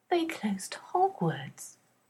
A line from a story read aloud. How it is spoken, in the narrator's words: Hermione says in a tiny voice